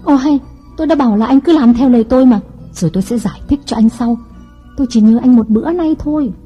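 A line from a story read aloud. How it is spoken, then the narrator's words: Shouting. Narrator (Vietnamese): Mỹ ... la lên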